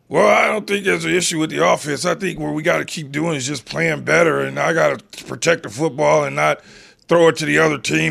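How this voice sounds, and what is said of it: Patrick Mahomes impression, slightly froggy throat. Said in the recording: “I did that with his voice ... is that how Patrick Mahomes sounds? ... there's a little bit of a frog in the back of Patrick Mahomes' throat”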